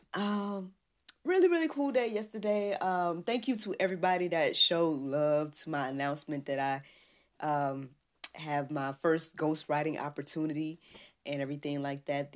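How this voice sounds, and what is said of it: Raspy voice. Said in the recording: “tickled myself this morning with this raspy voice”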